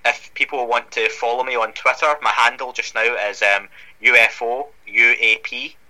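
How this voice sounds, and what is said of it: Scottish accent. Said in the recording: “That Scottish UFO Podcast, you know, given the accent and my background”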